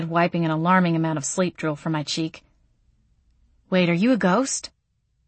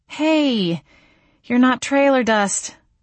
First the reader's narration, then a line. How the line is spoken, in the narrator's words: I exclaimed